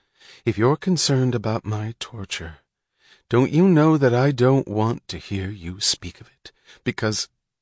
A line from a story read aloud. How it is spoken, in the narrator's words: she said, her voice low